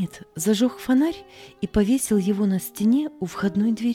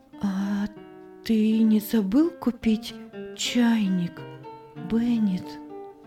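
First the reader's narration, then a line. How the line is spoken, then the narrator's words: Quiet question. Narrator (Russian): тихо спросила Анна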